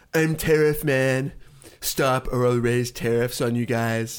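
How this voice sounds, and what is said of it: Donald Trump impression. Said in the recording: “your Trump impersonation has gotten better. It's no longer Cartman.”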